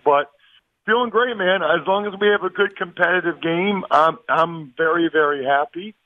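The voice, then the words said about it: Rough, worn-out voice. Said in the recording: “my voice is a little bit dicey after a, a week on Radio Row and Super Bowl”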